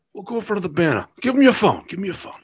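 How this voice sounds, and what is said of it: Imitates another person's accent. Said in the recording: “Perfect accent, by the way.”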